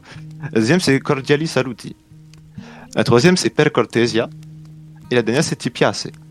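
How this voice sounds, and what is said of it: Very thick accent speaking Italian. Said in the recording (French): “Excusez-moi si j'ai un mhm. accent à euh, coupé au couteau.”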